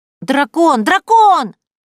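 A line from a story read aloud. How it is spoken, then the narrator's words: Joyful child shouting. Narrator (Russian): Радостно завопил кто-то из малышей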